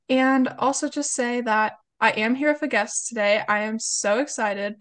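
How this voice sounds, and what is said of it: Slightly congested, off-sounding voice. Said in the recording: “I have a bit of a cold, so I do want to apologize if my voice is a little bit off”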